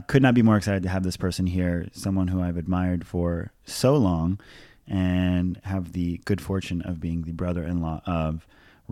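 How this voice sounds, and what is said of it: Deeper, enunciated radio-host voice. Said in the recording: “podcast voice ... I go an octave deeper ... It's really a good radio voice ... There's some real enunciation”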